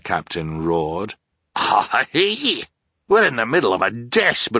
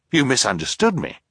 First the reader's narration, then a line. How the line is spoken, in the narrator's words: Klaus said quickly